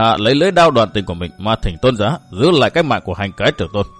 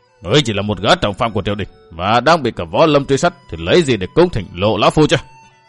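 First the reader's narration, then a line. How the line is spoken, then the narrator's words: Harsh, forceful voice. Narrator (Vietnamese): lão gằn giọng nói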